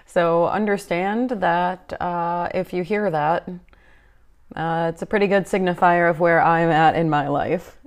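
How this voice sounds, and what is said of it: Flat, semi-monotone voice. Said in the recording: “my semi-monotone voice ... If I sound like I'm half dead and not really present”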